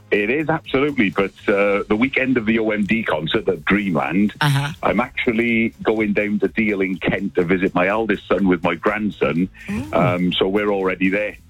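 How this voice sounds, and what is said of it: Welsh accent. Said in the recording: “Do I hear a Welsh lilt there?... Yes, you do hear a Welsh accent”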